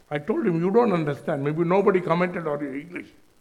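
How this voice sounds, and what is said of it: Indian-accented English. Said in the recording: “my accent is Indian”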